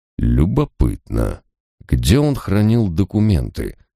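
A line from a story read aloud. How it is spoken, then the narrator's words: Mumbling. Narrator (Russian): пробормотал я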